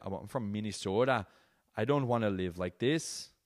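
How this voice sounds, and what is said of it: Put-on Minnesota accent. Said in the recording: “I don't know why at the end that accent was weird. But Minnesota, right?”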